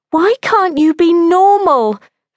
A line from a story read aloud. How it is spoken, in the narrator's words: Phyllis had wailed in an upstairs bedroom